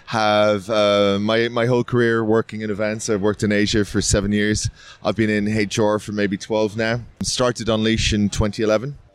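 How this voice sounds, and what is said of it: Irish accent. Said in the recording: “Irish, obviously, with the accent.”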